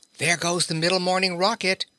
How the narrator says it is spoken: one of them eagerly cried

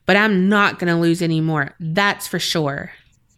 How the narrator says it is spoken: Tom said angrily

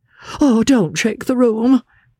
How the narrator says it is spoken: cried Mr

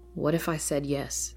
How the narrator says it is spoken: Faye finally replied

